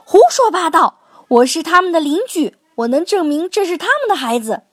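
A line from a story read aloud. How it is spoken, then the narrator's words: Furious yelling. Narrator (Chinese): 猴子先生气得哇哇大叫道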